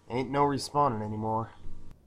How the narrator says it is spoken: Scout said, more to his hands than to anyone in particular

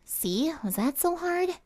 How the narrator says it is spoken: She mumbled to herself

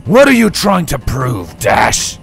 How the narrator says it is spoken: Charged bellowed

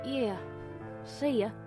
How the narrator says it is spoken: muttered Rubblejack

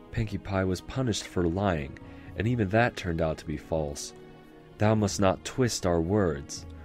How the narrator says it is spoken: Luna said, careful to keep her voice down and not panic the local populace

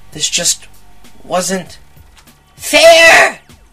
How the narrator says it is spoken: I screamed

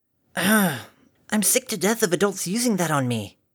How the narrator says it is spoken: Scootaloo snarled

